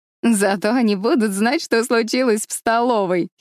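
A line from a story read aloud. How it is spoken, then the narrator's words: Giggling. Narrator (Russian): хихикнула Гвенни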